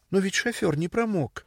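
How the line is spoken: Babbling. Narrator (Russian): пролепетала Сесилия

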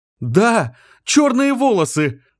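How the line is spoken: Shouted. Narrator (Russian): крикнула она

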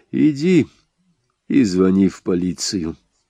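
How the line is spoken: Calm. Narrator (Russian): спокойно сказал я

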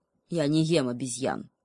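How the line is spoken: Sullen growl. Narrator (Russian): угрюмо прорычал волк

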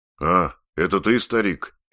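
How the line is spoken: Gloomy. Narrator (Russian): мрачно сказал он

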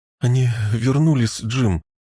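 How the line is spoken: Broken, breathless voice. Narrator (Russian): произнесла она прерывистым голосом

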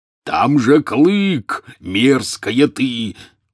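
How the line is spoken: Angry roar. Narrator (Russian): взревел Хагрид

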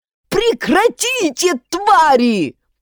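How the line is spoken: Yelling. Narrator (Russian): заорал Егоров

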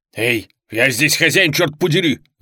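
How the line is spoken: Bark. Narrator (Russian): рявкнул Дэйв

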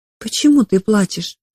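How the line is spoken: Soft question. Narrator (Russian): Мейкин мягко спросила

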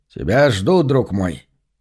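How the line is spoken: Solemn proclamation. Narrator (Russian): торжественно провозгласил Джон

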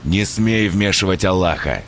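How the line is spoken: Growled. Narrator (Russian): зарычал Бувайсар

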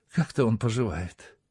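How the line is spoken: Sighing. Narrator (Russian): вздохнув, сказала

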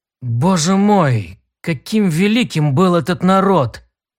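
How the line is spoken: Breathless exhale. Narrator (Russian): выдохнул Тарн

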